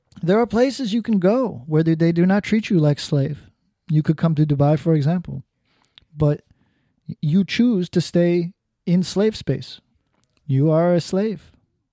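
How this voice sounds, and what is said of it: Imitated foreign accent, Arab or Mexican. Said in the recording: “I'm trying to do his accent, I have no idea where the fuck he's from, so he's either going to be Arab or possibly Mexican by the end of this.”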